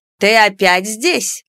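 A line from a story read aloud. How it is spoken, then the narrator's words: Stern question. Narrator (Russian): строго вопросила Нара-библиотекарь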